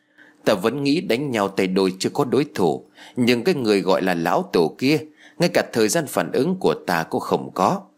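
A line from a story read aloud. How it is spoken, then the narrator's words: Middle-aged man, sighing. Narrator (Vietnamese): Chú trùng niên thở dài rồi nói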